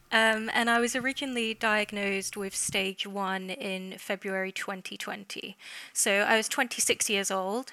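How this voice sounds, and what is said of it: English accent. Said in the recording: “I'm from England, if you can't tell by the accent”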